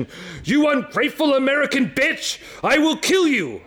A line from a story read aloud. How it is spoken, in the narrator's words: She yelled through the partition